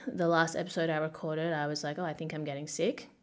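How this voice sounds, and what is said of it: Raspy, hoarse voice. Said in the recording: “my voice is like raspier than usual. It's because I'm sick.”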